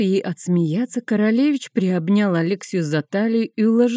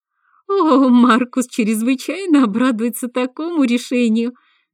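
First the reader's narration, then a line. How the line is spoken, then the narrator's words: Ringing laughter. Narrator (Russian): заливисто засмеялась Алекса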